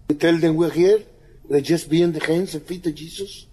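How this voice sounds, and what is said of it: Thick foreign accent. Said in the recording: “he's got a real thick accent. So, really, you got to pay attention. You know, tune your ears in”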